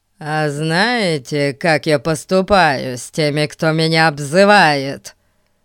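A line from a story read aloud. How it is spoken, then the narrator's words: Menacing declaration. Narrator (Russian): грозно заявил мальчик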